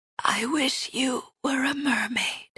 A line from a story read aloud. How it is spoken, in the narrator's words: Marin whispers